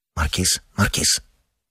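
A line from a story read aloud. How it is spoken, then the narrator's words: Low restraining voice. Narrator (Russian): вполголоса сдерживал сосед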